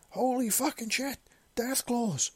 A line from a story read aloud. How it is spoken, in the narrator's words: the man yelled